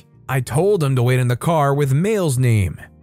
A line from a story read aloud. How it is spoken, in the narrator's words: She scoffed and said